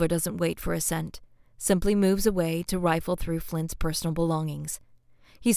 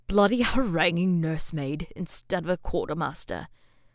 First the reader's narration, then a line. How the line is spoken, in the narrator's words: Flint mutters darkly from somewhere behind him